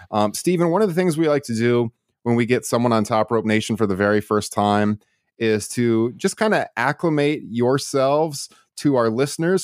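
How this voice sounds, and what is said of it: Slightly raspy voice from cold. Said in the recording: “I'm just getting over a cold, so from our usual listeners, they might tell I, I sound a little bit raspy”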